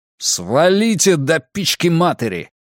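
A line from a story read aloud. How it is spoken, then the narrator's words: Angry yell. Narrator (Russian): заорал Драккайнен, видя, что Варфнер тоже начинает бурчать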